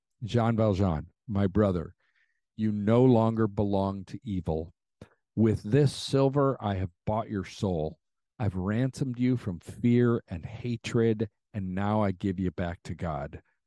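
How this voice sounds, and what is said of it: Choked-up, emotional voice. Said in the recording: “I get choked up just reading that to you guys now”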